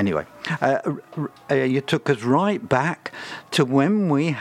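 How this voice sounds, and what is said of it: Usual voice. Nothing is said of it.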